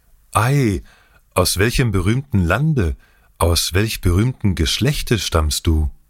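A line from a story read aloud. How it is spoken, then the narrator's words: Youth calling with innocent joy. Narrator (German): Mit unschuldiger Freude rief der Jüngling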